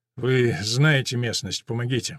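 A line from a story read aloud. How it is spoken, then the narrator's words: Mumbling. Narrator (Russian): бормочет Тамаринда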